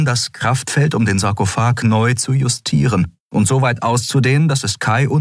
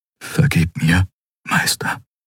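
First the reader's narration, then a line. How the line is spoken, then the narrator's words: Whisper. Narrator (German): flüsterte er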